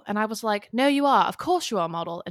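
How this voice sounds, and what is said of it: Put-on English accent. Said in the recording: “I can't tell whether it was my worst accent ever ... That was a beautiful accent.”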